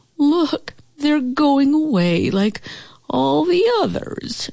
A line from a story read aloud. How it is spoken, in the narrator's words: it whined